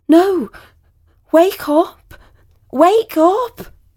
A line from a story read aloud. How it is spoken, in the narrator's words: cried out